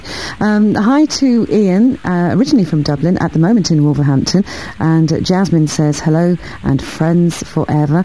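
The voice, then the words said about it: Husky voice. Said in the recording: “A bit husky tonight. ... my old Louis Armstrong impression”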